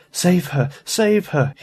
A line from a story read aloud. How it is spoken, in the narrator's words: moaned